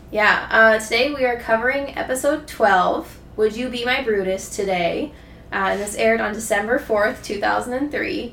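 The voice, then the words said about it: Sick, strange-sounding voice. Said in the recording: “I'm a little under the weather, so I might be coughing and my voice sounds very weird.”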